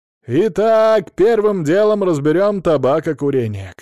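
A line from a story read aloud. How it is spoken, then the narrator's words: Shouting. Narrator (Russian): кричал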